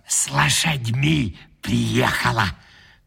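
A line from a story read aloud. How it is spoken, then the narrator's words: Old woman whispering. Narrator (Russian): Шепотом передала старуха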